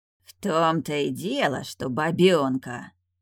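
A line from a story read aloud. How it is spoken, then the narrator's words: Disdainful grumble. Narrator (Russian): проворчал генерал, брезгливо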